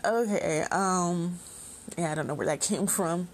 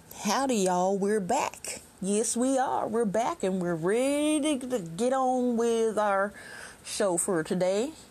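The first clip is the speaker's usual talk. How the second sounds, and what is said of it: Put-on cowboy accent. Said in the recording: “I don't know why I'm talking like a cowboy for some reason, but I guess I'll stop because it sounds silly.”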